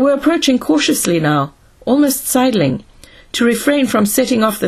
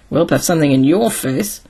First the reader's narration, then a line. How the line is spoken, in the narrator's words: muttered Donovan